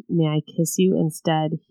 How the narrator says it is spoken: He whispered

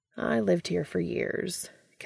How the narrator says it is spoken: Castiel says wistfully

